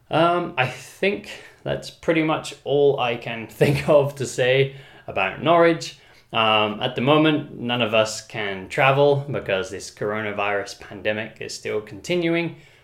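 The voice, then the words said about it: Neutral non-regional British accent. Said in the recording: “my accent has become very neutral. So I still have a British accent, but it's not like a regional British accent ... they don't know what part of the UK I'm from”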